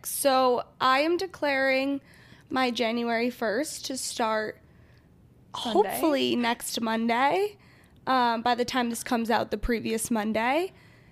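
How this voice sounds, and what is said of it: Sick-sounding voice. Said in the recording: “hear it in my voice. I was sick.”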